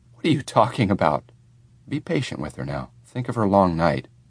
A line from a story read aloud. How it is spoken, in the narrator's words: My mother said sharply